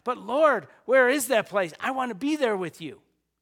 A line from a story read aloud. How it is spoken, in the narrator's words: Thomas who yells out